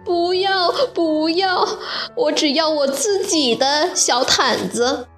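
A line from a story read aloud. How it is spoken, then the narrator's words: Crying. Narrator (Chinese): 弗洛拉哭着说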